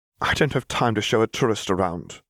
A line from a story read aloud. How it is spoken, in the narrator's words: snapped Hermione